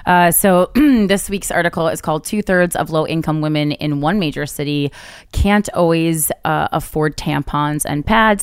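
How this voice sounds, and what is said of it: Hoarse, raspy voice. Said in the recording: “apparently I'm getting my laryngitis back”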